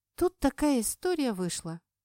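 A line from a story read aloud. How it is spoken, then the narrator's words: Sighing. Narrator (Russian): вздохнула я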